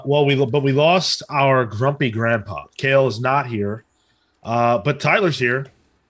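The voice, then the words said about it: Imitates another person's voice. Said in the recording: “that a good Kale impression? ... That's you're in the ballpark. ... It was fine.”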